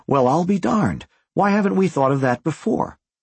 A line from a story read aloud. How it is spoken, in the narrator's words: as if they had rehearsed their speech, they exclaimed simultaneously